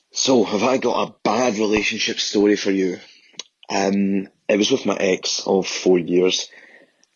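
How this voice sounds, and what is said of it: Strong Glaswegian accent. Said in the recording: “from Glasgow... let's try and decipher what he's actually saying with his accent... I'm very good at Glaswegian.”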